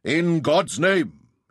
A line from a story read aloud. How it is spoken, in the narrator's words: intoned the number 3